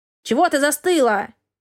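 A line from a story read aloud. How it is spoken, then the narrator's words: Cat's bark. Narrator (Russian): рявкнул кот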